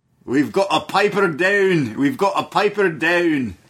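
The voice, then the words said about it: Put-on Scottish accent. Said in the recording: “Can you do a Scottish accent?”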